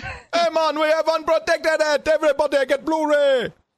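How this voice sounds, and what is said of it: Put-on Trinidadian accent. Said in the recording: “do the voice. Give us a Trinidad voice.”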